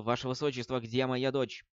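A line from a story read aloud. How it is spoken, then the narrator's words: Angry. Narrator (Russian): гневно сказал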